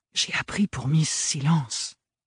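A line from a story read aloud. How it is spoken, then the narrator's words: Whisper. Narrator (French): chuchota-t-elle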